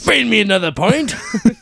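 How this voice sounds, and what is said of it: Put-on Irish-Scottish accent. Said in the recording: “Do you want to hear my Irish accent? ... that's more like... It's more Scottish”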